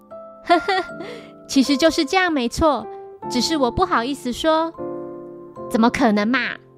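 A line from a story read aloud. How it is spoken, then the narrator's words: Amused, exasperated laugh. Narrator (Chinese): 新一感到无语，然后笑着回应道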